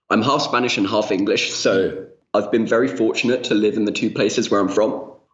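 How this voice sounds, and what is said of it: British accent. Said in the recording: “my British accent.”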